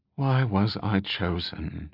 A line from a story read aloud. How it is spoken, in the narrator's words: She asked softly, her words barely more than a whisper